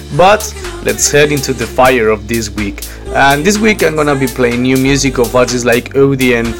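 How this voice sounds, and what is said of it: Deeper voice from a cold. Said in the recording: “my voice is a little bit deeper because again, I've been sick this week”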